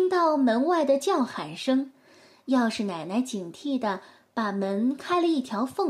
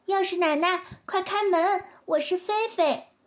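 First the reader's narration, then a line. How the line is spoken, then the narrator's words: Calling out. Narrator (Chinese): 菲菲也帮着叫道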